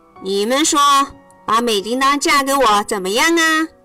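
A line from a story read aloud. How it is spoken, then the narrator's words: Loud. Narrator (Chinese): 大声说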